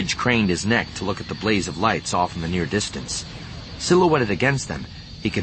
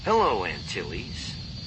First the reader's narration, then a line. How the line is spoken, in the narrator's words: a vaguely familiar voice said dryly in his ear